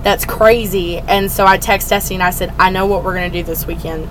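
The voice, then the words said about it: Hoarse voice from laryngitis. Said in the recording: “my voice is definitely out. ... you got a little bit of laryngitis.”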